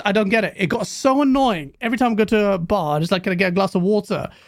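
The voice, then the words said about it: British accent. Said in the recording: “American women love their British accent... our accent”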